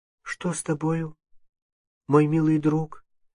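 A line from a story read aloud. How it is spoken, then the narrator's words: Timid question. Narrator (Russian): спросила робким голосом Анастасия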